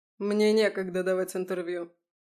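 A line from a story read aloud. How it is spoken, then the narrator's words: Dry. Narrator (Russian): сухо сказал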